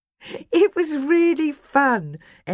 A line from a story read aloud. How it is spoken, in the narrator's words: Ellie laughed